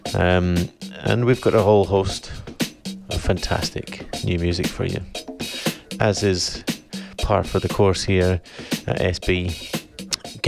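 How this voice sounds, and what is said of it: Northern English drawl. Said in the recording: “the dulcet tones of my northern drawl”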